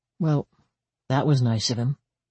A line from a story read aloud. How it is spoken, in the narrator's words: she said dryly